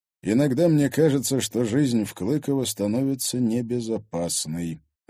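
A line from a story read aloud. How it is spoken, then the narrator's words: Sigh. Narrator (Russian): вздохнул Егор Зверев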